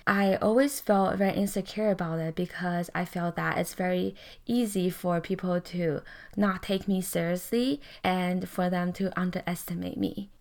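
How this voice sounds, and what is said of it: Accented, soft, slow speaking voice. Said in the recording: “When I speak, I have an accent. My voice is a lot softer. My tone is a lot slower sometimes when I talk.”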